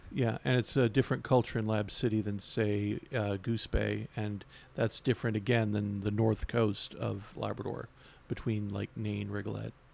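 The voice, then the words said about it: Thick Newfoundland accent. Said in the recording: “all three of us speaking here are Newfoundlanders ... we all have slightly different accents and well, you know, mine's a bit thicker”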